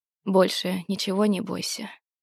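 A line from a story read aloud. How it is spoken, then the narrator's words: Quiet speech. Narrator (Russian): тихо проговорил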